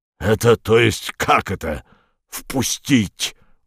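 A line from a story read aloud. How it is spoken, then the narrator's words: Howl. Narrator (Russian): взвыл он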